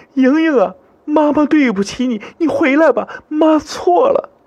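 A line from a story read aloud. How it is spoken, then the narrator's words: Loud wailing sobs. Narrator (Chinese): 他嚎啕大哭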